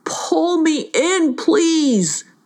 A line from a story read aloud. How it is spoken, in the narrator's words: begged Smash'em, who was feeling like he might fall into the tunnel and disappear